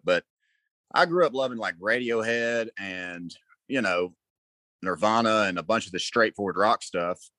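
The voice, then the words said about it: Southern American accent. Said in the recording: “it's impossible for me to hide my Southern accent”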